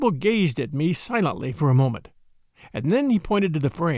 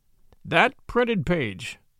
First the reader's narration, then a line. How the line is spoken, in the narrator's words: he said solemnly